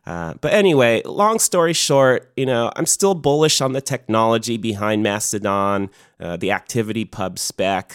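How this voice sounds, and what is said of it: Hoarse, fading voice from illness. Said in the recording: “my sickness is catching up to me a little bit here and I'm sort of losing my voice ... I'm losing it here”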